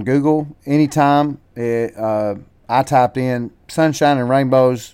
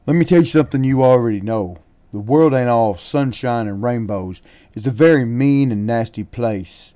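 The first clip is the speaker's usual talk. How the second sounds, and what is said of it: Imitation of Rocky's voice. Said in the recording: “my best Rocky impersonation, and I'm not an impersonator”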